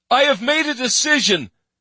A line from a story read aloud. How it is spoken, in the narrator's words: he shouted